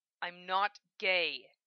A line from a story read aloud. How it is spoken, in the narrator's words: he hisses